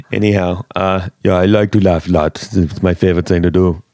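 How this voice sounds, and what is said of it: Put-on Norwegian accent. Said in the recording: “That's my best Norwegian.”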